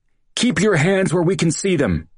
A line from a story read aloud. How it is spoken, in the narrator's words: yelled